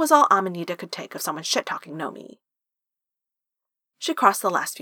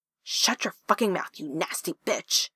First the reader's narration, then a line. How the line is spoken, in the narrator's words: Amanita hissed, grinning with vicious amusement